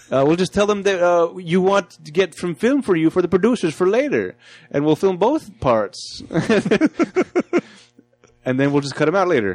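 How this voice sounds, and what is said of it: Silly put-on voice. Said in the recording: “I'm gonna start doing stupid voice because that's all I keep hearing now.”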